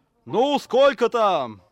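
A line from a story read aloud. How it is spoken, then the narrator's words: Distant yell from cab. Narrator (Russian): заорал из кабины Никсон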